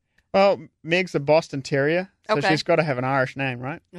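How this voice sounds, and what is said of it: Speaker's own regional accent. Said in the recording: “Mig, sorry, it's the accent.”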